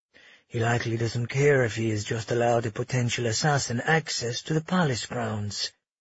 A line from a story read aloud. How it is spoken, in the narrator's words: Asher muttered to Magnus